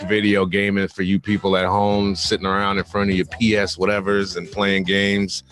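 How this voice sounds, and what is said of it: Deep, calm voice. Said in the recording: “I'm on the deep voice side of the game ... keep the voice nice and calm”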